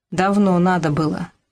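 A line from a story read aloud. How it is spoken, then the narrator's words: Sigh. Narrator (Russian): вздохнула Люба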